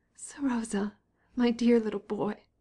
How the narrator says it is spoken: she cried, choking with tears

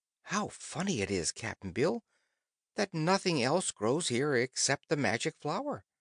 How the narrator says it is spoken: But then the girl exclaimed

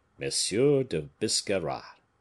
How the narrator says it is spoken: said the Bishop of Vannes, with a singular accent of nobility and courtesy

